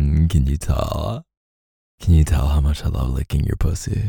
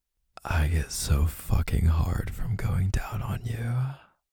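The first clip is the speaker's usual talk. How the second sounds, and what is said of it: Whispering. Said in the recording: “I'm gonna whisper it”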